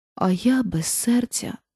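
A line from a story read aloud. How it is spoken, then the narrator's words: Sighing tin woodman. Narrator (Ukrainian): зітхнув бляшаний лісоруб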